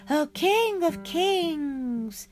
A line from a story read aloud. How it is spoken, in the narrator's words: cried Chatur